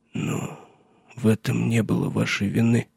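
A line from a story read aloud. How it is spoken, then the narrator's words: Strained after awkward silence. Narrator (Russian): выдавил он после неловкого молчания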